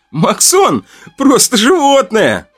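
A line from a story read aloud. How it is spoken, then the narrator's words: Laughing while speaking. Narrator (Russian): Сквозь смех говорил Ваня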